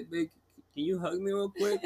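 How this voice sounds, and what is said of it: Baby voice. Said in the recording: “talking like the baby voice”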